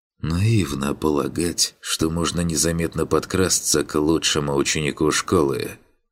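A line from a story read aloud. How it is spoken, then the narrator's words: Hiss. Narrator (Russian): прошипел Финн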